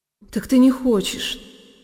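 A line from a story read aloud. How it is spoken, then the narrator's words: Frenzied whisper. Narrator (Russian): шептал он мне в каком-то исступлении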